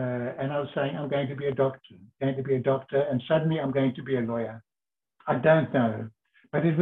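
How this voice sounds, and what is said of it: Usual voice. Nothing is said of it.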